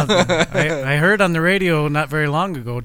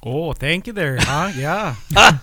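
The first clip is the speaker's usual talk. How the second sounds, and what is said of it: Exaggerated North Dakota accent. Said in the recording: “teasing me about my North Dakota accent, so I better get that dig in there”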